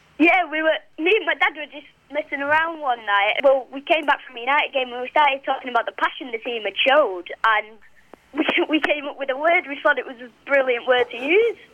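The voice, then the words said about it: Regional accent. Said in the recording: “in your accent”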